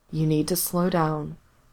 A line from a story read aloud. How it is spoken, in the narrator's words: he murmured